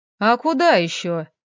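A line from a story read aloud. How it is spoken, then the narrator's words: Indignant, sarcastic reply. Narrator (Russian): возмущенно отозвался Леха и снова не удержался, снова съязвил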